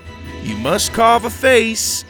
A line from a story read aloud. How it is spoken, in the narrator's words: Farmer Dan shouted over the tables